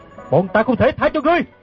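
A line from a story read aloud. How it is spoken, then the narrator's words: Loud shout. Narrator (Vietnamese): Gã bèn lớn tiếng quát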